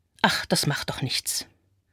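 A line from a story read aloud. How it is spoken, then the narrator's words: Murmuring. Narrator (German): Mich selbst höre ich murmeln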